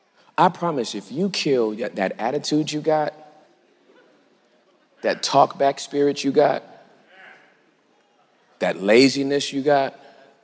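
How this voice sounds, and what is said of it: Country dialect speech. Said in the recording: “I know I'm talking country now.”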